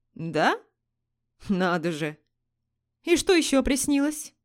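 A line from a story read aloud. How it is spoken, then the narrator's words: Mocking. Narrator (Russian): Насмешливо произнес Алан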